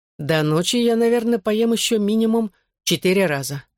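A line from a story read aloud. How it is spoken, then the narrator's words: Plain. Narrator (Russian): ответил он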